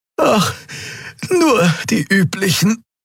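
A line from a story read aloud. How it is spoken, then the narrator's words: Breathless gasping. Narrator (German): keuchte die Draxyl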